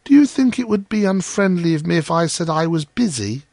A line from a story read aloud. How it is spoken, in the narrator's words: he inquired in a shy, timid voice